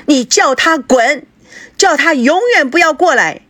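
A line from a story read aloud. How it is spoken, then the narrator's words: Loud shout from inside. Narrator (Chinese): 孙娜在房里面大声的喊道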